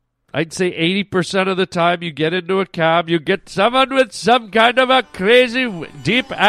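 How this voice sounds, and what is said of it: Usual voice. Nothing is said of it.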